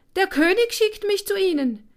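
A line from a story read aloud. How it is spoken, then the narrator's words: Squeaky small voice. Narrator (German): piepste der kleine Kerl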